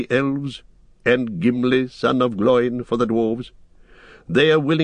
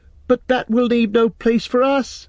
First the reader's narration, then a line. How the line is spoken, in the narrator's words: cried Pippin in dismay